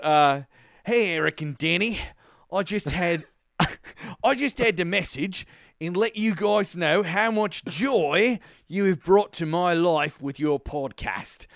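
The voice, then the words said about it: Put-on New Zealand accent, sounds Australian. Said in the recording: “I'm going to do my best New Zealand accent, which will sound a little bit like an Australian accent because I'm not good enough to differentiate”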